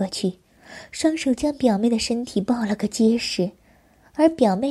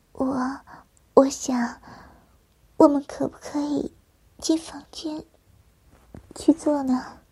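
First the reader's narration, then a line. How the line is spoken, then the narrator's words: Shy, quiet voice. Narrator (Chinese): 表妹红着秀脸，小声的对我说着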